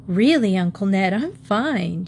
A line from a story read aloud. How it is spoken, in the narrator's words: she chuckled